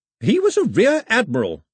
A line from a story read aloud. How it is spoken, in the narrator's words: her grandmother snapped